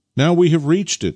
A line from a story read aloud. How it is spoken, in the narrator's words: exclaimed Nikita